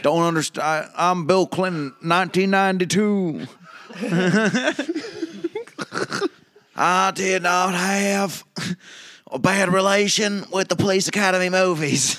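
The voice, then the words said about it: Bill Clinton impression. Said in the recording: “I can't do a Bill Clinton impression, ... It sounds more like George W. Bush.”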